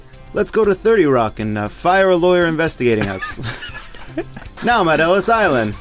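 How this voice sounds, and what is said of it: Put-on Italian New York accent. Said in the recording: “It's like a sort of Italian accent, but sort of New York.”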